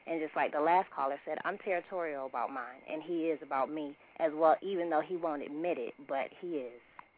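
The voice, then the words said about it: Slight New York accent. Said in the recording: “I hear a little New York in your accent. I hear a little New York in there.”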